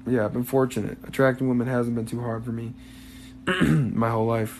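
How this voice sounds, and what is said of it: Strained, fading voice. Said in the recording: “I'm like losing my voice here”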